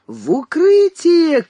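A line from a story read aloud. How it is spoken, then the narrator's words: Shouts from all sides. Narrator (Russian): кричали ему со всех сторон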